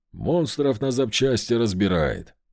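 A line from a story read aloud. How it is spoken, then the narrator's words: Scoffing grunt. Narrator (Russian): хмыкнул Левин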